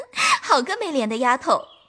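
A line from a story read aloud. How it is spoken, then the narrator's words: Hearty laughing, offstage. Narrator (Chinese): 山石背后哈哈的笑道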